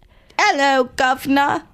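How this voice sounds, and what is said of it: Put-on British accent. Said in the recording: “Like a British frog... the best accent I've done in my entire life. That was pretty good.”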